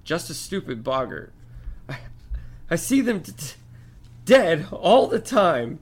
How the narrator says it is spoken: Miss Weasley moaned into her shoulder

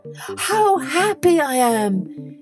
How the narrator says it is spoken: he cried

